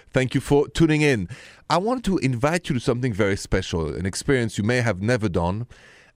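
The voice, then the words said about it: French accent. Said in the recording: “My accent is French, français, straight from Paris.”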